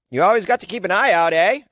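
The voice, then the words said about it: Put-on Vermont or Maine accent. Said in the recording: “This is a great Vermont accent, I think. Or am I doing Maine?”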